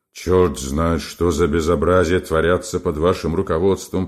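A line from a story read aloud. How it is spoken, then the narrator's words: Grumbling. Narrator (Russian): проворчал Квашнин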